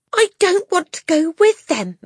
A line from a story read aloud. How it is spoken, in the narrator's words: Matilda shouted suddenly